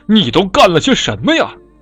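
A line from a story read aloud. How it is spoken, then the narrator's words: Angry old man roaring. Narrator (Chinese): 拐杖爷爷生气地咆哮着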